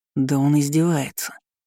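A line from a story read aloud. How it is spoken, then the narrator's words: Hissed. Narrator (Russian): прошипел Неждан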